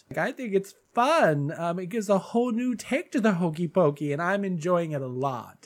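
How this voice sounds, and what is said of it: Stuffy, congested voice. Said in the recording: “my voice sounds a little off today ... my allergies go haywire. So I've been a little stuffy today ... I'm a little stuffy”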